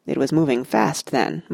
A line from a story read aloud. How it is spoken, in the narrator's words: muttered Aragorn